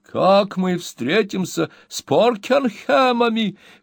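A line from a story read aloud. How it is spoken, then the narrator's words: Exclaimed. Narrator (Russian): воскликнула миссис Напкинс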